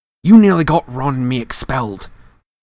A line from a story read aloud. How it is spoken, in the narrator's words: he said fiercely